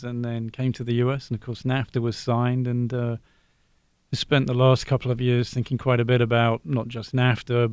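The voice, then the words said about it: British English accent. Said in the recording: “So, you're from Britain. I thought from your accent”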